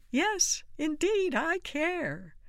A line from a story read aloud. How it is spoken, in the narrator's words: Pierre, who shouted